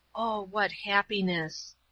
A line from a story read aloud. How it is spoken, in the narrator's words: A contented sigh came from the bed